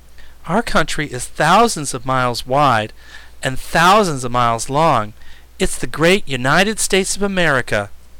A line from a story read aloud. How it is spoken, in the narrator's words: added the boy earnestly